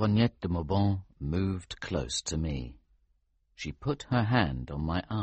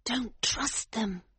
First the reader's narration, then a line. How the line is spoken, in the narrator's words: she whispered urgently